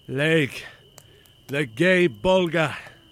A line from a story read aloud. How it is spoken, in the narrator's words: said to himself, and he called out